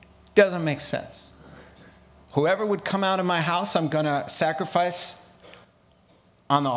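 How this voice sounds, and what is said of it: Usual voice. Nothing is said of it.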